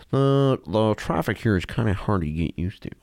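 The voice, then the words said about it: Imitates another person's voice. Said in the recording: “That's like Owen Wilson a little bit.”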